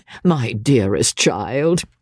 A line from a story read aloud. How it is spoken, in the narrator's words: said her mother, laughing